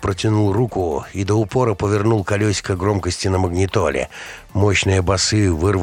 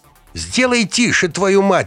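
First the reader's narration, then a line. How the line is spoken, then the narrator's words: Shrieked. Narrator (Russian): взвизгнула Леся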